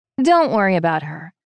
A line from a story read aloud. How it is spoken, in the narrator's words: Vivian says dryly